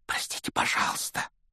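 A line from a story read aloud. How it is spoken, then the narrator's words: Whisper. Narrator (Russian): прошептал Гарри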